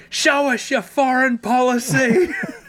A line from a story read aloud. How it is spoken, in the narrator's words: at the top of my voice